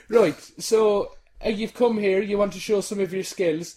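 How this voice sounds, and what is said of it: Put-on Irish accent, slightly Geordie. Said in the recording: “I'm Irish. ... there's a little bit of Cheryl Cole popping in there.”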